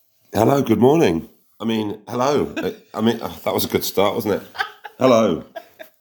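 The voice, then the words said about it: Hoarse voice. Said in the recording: “my voice is quite hoarse.”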